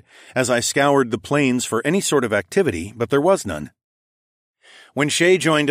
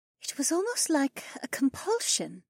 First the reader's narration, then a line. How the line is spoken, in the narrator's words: the Phoenix woman added in a thoughtful voice